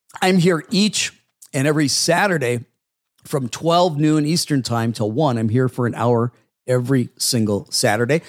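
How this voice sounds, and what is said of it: Strained, hoarse voice. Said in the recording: “Losing my voice. ... I'm losing my voice here.”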